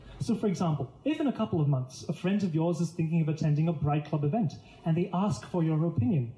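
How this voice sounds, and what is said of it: Indian accent, a bit hard to place. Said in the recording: “random Indian guy speaking in an accent that was a bit hard to place”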